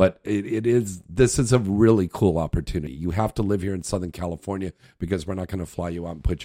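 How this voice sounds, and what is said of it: Usual voice. Nothing is said of it.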